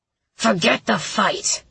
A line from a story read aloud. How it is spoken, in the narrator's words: he growled